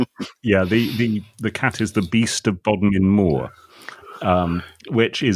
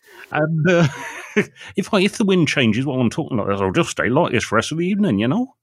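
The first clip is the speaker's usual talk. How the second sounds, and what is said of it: West Country pirate accent. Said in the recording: “what's actually my natural accent? This, which is a pirate accent, really, because this is where pirates come from ... in the west of England”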